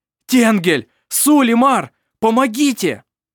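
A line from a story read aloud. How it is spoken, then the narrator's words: Shouting for help. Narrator (Russian): закричал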